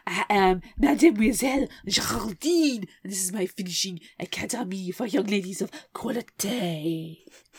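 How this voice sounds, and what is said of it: Very bad put-on French accent. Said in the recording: “I am exceedingly French ... that is the worst French accent I have ever heard”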